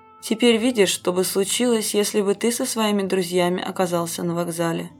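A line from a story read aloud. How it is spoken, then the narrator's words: Plain. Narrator (Russian): сказал он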